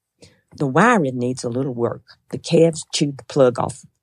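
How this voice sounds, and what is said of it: Put-on Oklahoma accent. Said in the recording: “How was her accent, by the way? ... That was pretty darn good, Oklahoma”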